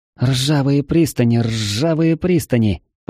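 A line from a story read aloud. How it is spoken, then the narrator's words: Grumbling mutter. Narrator (Russian): пробурчала Лу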